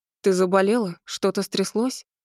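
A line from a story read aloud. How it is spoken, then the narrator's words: Muffled questions. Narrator (Russian): Глухо звучали вопросы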